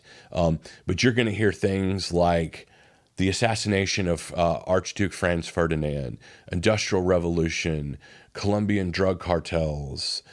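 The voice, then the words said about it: Slight Southern American drawl. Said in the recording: “I know I got a bit of a southern drawl”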